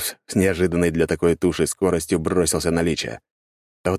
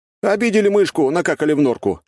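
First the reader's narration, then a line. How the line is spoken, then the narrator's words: Smirking snort. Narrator (Russian): хмыкнул я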